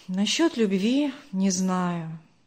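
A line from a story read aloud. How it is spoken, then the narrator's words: Heavy sigh. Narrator (Russian): тяжело вздохнул Даниил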